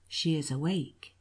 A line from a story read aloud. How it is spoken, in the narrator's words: He said softly